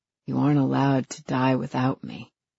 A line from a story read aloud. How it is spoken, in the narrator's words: he whispers